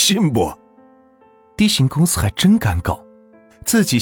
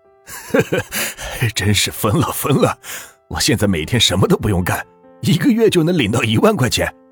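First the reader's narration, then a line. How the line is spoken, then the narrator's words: Laughing, cursing. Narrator (Chinese): 司机笑着骂道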